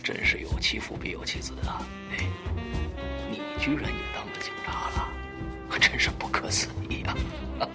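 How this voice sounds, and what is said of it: Quiet, hushed speech. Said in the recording (Chinese): “小声的说”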